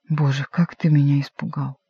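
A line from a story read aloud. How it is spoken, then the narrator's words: Quiet, ingratiating. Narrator (Russian): он улыбнулся, как бы заискивающей улыбкой, и тихо молвил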